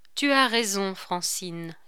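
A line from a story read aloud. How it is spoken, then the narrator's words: Plain. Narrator (French): dit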